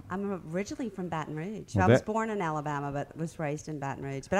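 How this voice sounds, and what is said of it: Charming Southern Belle accent. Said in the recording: “You have this sort of charming Southern Belle accent.”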